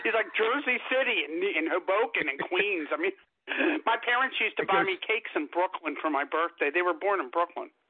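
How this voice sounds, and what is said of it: New York accent. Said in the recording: “Talking with my New York accent again.”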